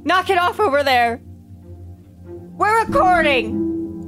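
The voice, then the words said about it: Loud screaming voice. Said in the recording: “Lower your voice! ... I'm screaming.”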